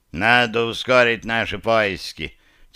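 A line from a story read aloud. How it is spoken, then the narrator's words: Slightly tipsy voice. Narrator (Russian): слегка захмелевшим голосом произнес Ренни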